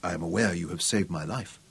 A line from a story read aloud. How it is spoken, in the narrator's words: he told her gravely